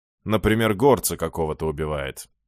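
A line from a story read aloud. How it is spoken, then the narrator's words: Gloomy agreeing priest. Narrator (Russian): мрачно поддакнул жрец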